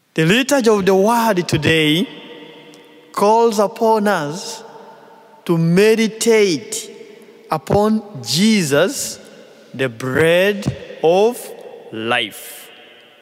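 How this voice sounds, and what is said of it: Non-native accented English. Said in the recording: “my English accent”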